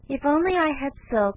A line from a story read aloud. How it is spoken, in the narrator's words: sighed Meg